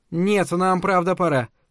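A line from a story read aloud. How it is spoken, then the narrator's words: Hurried. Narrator (Russian): торопливо сказала миссис Гербер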